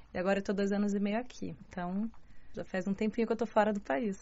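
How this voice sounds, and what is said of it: Brazilian Portuguese Curitiba accent. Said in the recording (Portuguese): “Tem sotaque de curitibano? ... Muito!”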